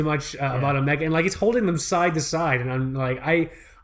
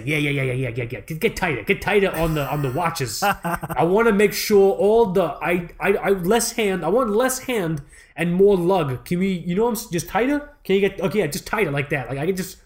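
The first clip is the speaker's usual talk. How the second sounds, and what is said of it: Put-on greasy Long Island accent. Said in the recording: “That is a great Swiss accent that you're doing right now ... I think I was trying to do like a greasy Long Island accent, and it just fell apart ... You have a great greasy Long Island accent”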